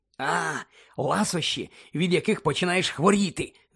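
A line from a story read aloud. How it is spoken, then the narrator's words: Cautious whisper. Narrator (Ukrainian): зашепотів Джордж, сторожко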